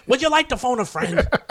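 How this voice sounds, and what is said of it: Imitates another person's voice. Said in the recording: “That's my Regis... my Regis impersonation.”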